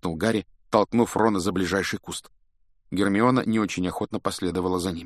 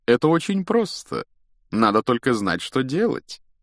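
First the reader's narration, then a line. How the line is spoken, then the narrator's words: Professorial explaining tone. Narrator (Russian): профессорским тоном объяснял Локонс Хагриду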